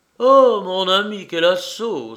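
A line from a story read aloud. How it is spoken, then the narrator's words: Exclaiming. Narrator (French): s'écrie Dolincourt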